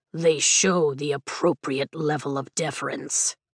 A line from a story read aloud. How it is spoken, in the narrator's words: Taryn grumbles